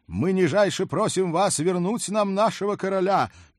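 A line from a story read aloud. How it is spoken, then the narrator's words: Loud request. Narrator (Russian): громко попросил Герольд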